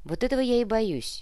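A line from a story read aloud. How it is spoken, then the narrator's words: Sighing. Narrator (Russian): Кортес вздохнул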